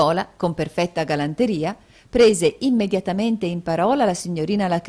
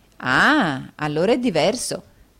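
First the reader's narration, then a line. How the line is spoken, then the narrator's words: Plain. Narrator (Italian): disse Nicola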